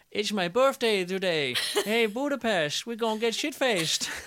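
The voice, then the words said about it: Impression of a Danish-accented singer. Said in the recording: “in her Danish accent... Good impression”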